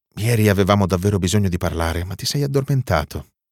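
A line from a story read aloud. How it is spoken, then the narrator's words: Quiet voice. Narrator (Italian): dice lei sottovoce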